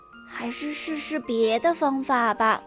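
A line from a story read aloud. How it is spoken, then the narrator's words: Long sigh. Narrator (Chinese): 米拉长长的叹了一口气，说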